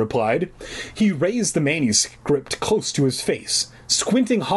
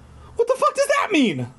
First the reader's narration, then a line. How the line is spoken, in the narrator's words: I cried